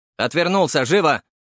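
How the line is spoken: Menacing shout. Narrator (Russian): выкрикнул он максимально грозным голосом

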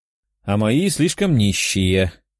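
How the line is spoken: Snorted. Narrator (Russian): фыркнула девушка-дракон

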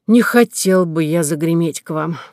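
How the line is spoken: Sigh. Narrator (Russian): вздохнул инженер

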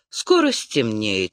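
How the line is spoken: Calm. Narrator (Russian): спокойно сказал он

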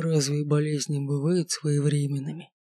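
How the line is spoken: Rasping. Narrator (Russian): Прохрипел некромант

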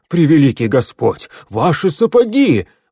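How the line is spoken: Exclaimed. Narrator (Russian): воскликнул

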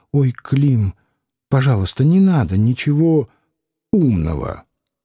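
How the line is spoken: Quiet request. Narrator (Russian): Варвара попросила тихонько

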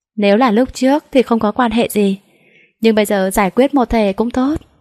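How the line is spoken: Faint cold smile. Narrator (Vietnamese): Trợ lý Tiêu cười nhạt nói

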